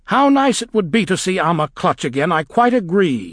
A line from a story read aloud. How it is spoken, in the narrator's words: shouted the witch